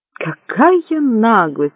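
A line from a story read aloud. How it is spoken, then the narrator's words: Indignant exclamation. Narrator (Russian): возмущенно воскликнул Магнан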